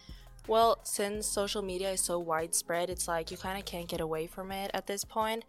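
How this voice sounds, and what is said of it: Norwegian accent in English. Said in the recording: “If you guys hear an accent, that's because she's from... Norway.”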